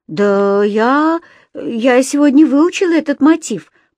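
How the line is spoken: Mumbling. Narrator (Russian): промямлил я

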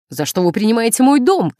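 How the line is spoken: Shouting. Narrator (Russian): кричала она

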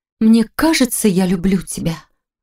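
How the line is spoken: Breathy moaning woman. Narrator (Russian): со стоном выдохнула любовница

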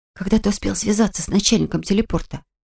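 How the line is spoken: Whispered. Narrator (Russian): шепнула я Диашу

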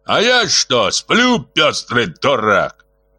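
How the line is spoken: Bark. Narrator (Russian): рявкнул с места Кулевидзе

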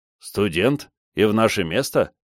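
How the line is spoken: Man's scoffing grunt. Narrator (Russian): хмыкнул мужчина

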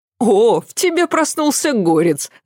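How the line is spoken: Laughing. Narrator (Russian): Засмеялась она

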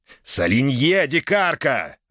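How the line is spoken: Furious growl. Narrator (Russian): рыкнул взбешенный гость

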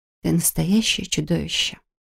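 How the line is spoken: Breathed against lips. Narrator (Russian): выдохнула ему в губы

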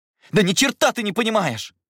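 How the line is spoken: Angry outburst. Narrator (Russian): сорвался я, резко повернувшись к нему

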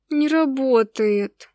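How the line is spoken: Disappointed drawl. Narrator (Russian): Разочарованно протянула я

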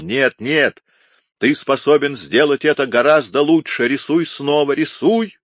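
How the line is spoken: Nervous shouting. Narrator (Russian): Нервно переступая с одной ноги на другую, он кричал

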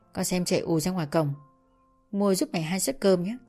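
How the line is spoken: Soft instruction. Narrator (Vietnamese): Bà khẽ bảo

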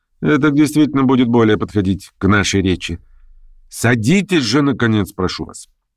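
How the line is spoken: Sharp and persuasive. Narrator (Russian): Она объяснила ему все сразу, резко и убедительно

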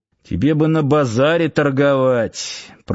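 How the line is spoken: Muttered under breath. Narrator (Russian): пробурчал под нос Сошин

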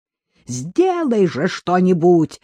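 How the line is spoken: Yelling, breaking into shriek. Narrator (Russian): срываясь на визг, завопил

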